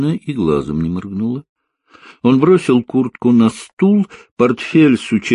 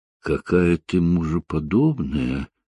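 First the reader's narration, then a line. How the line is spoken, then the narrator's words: Soft rustling voice. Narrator (Russian): тихо прошелестела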